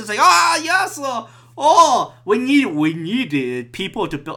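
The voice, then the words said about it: Mock Chinese accent. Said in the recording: “Why am I doing the Chinese accent”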